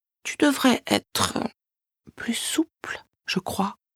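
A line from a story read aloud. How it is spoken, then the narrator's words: Soft whisper. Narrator (French): susurre-t-elle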